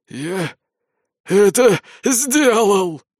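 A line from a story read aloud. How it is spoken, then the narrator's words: Hoarse croak. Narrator (Russian): хриплым голосом прокаркал он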